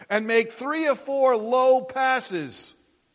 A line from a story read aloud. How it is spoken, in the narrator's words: yelled the photographer